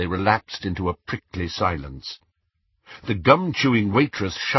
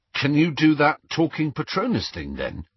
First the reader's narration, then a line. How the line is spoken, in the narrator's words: asked